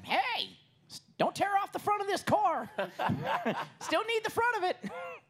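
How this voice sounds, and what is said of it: Imitates another person's voice. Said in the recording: “Chris going... that was actually a pretty good impression right there. I felt good about that one.”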